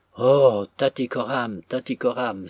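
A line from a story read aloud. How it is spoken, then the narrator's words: Crying out. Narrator (French): s'écria M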